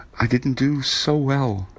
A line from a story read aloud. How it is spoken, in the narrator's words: he said sadly